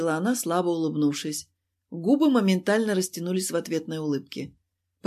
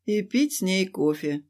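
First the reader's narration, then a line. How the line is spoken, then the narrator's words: Sighed. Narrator (Russian): вздохнул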